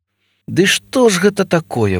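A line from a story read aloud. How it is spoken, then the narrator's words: Exclaimed. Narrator (Ukrainian): вигукнув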